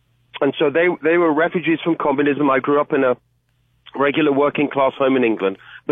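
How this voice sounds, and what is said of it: British English accent. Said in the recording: “Obviously, people can hear from my accent. I'm originally from the UK.”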